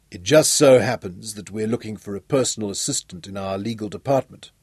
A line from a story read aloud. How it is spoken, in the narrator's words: Johnny murmured